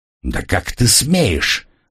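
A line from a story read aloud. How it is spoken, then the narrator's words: Exclaimed. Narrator (Russian): воскликнул Росас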